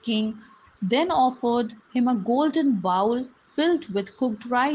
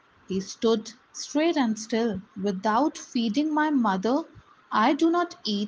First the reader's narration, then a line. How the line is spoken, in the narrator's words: he said